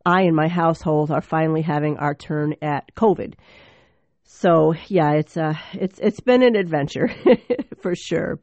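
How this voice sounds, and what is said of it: Sick, cracking voice. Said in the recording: “excuse my voice if it cracks at all”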